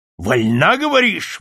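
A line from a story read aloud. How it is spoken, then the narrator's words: Shout. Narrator (Russian): выкрикнул Болдуин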